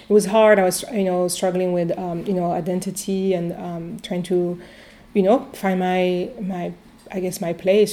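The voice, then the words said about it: Strong foreign accent. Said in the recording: “very strong accent. I still do, but even stronger than now ... coming from a different country”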